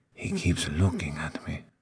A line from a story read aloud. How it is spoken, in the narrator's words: whispered